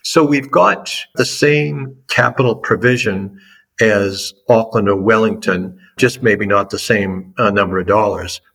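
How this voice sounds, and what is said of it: American East Coast Boston accent. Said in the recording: “your listeners that may have an ear for American accents would pick up pretty quickly that I'm from the East Coast, and those that have a really good ear might identify Boston”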